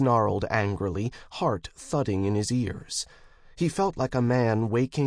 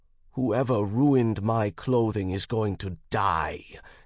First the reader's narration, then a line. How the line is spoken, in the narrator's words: he pledged through gritted teeth